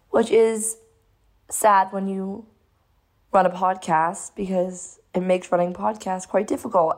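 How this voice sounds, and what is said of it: Lost, damaged voice. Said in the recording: “As you can probably tell, I've lost my voice, ... I don't want to permanently put my voice sounding like this”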